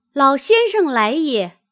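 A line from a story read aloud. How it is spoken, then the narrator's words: Calling out. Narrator (Chinese): 叫曰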